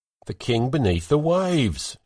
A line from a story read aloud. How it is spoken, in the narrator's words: shouted Hrolf over his cup